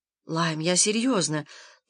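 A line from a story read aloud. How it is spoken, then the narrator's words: Quiet. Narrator (Russian): тихо сказала она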